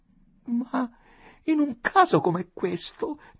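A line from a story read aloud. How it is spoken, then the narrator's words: Moaning woman. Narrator (Italian): gemette donna Adelaide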